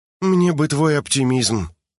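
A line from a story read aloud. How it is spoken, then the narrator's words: Forced, bitter. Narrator (Russian): выдавила Харин горькую улыбку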